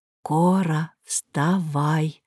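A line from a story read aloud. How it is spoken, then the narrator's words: Old woman whispering. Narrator (Russian): прошептала бабушка Романова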